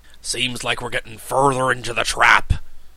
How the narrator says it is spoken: growled Cap'n Bill

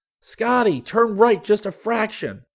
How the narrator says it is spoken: Rick yelled

